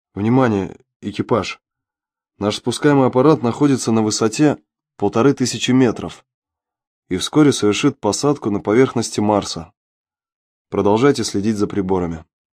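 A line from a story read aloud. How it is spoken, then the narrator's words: Quiet, restrained excitement. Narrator (Russian): Павел, сдерживая волнение в голосе, тихо произнес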